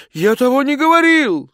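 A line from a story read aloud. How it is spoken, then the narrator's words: Shouted. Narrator (Russian): закричал он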